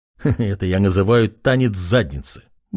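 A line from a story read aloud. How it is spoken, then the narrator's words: Silent inner chuckle. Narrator (Russian): мысленно хохотнул парень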